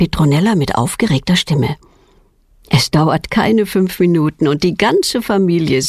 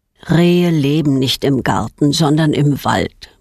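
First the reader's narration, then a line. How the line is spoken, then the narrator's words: Plain. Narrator (German): sagt Petronellas Vater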